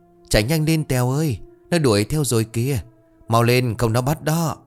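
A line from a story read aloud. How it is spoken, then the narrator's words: Panicked shouts while running. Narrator (Vietnamese): sự sợ hãi bùng lên, tiếng la hét vang vọng, cả lũ vừa chạy vừa rối rít gọi nhau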